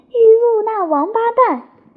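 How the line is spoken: Angry, loud, high-pitched. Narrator (Chinese): 好在发怒，声音又高又亮的叫道

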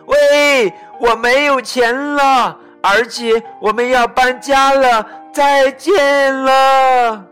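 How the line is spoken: Loud call from car. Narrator (Chinese): 咪咪从车里探出头，大声的对他说

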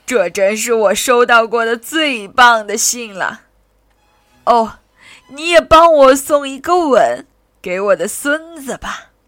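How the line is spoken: Grandmother, smiling. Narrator (Chinese): 奶奶笑着说

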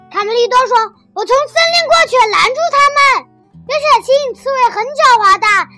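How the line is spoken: Shouting. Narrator (Chinese): 贝里奥喊道

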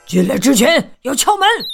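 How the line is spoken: Roar. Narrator (Chinese): 刺猬吼道

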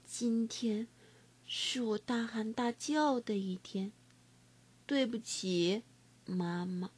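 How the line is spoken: Yawning, soft. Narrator (Chinese): 我又打了个哈欠，轻声说

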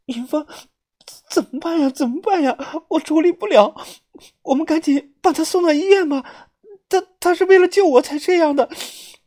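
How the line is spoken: Voice near tears. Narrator (Chinese): 小轩声音明显带了哭腔

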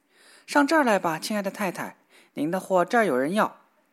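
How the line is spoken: Shouting. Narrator (Chinese): 小裁缝喊叫道

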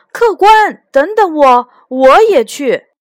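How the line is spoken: Hurried call. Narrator (Chinese): 小伙计赶紧喊住他

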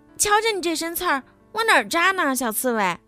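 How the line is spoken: Loud shout. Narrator (Chinese): 狐狸大叫着

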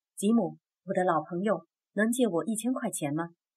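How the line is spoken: Low question. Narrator (Chinese): 桑顿 低声问道

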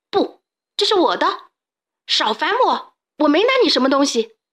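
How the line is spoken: Panicked yelling. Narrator (Chinese): 小胖墩大喊大叫，好像有什么人在后面追他

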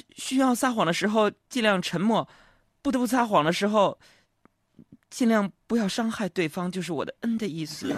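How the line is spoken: Soft-voiced girl. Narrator (Chinese): 这丫头小声就说道

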